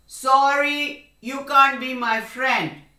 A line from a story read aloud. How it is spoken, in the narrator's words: The frog croaked